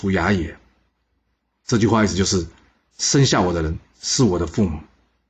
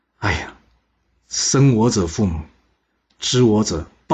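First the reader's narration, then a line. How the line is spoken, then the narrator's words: Deeply moved sigh. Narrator (Chinese): 管仲从别人那里听到鲍叔牙对他自己的评价后，非常感叹的说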